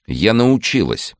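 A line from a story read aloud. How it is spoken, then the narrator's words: Angry. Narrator (Russian): зло возразила Ольга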